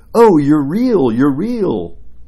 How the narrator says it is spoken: the children exclaimed

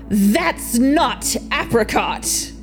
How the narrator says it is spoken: he bellowed

